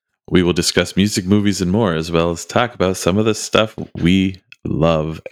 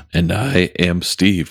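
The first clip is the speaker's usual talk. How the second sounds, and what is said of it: Voice cracks mid-sentence. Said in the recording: “my voice cracked ... cracky ... cracky voice”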